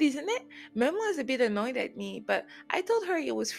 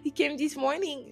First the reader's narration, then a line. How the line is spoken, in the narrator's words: Lulu laughed